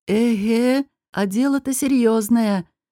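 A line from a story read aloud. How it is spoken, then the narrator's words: Sighed. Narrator (Russian): вздохнул Алвар Гор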